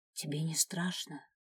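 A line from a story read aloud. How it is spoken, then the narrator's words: Whispered question. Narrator (Russian): шепотом поинтересовалась она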